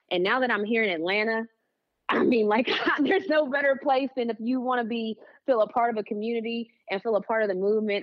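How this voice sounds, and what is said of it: West Virginia accent on certain words. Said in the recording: “that accent that you hit certain words with came from. That is West Virginia.”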